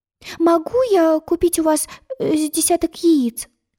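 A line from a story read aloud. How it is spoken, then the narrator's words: Timid babble. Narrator (Russian): робко пролепетала она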